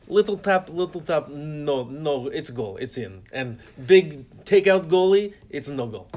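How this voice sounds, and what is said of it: Exaggerated Russian accent, Alex Ovechkin. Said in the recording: “You're going a little too deep on the Russian accent.”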